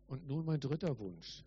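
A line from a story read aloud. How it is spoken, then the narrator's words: Plain. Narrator (German): sagte Jesus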